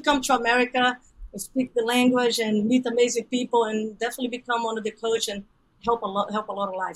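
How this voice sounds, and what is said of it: Brazilian Portuguese accent. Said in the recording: “I'm originally from Brazil. ... I still have an accent”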